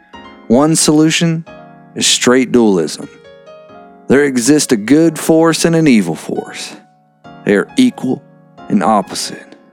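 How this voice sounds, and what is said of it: Country accent while reading aloud. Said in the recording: “I don't know why my, the way I'm talking... my freaking country accent... How the hell did I get an accent while reading this book?”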